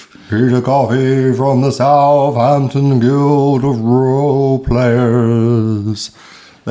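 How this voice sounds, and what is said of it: Spooky voice. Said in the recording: “that's my best spooky voice.”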